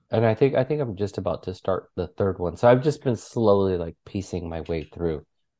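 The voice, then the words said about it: Sick, congested voice. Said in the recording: “This being sick, I hate it so much ... my medicine's wearing off now ... coughs are coming through. You can probably hear it in my voice right now ... noses running”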